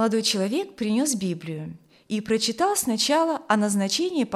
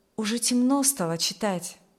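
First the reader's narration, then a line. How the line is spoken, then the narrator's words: Plain. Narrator (Russian): сказал Николай Каримский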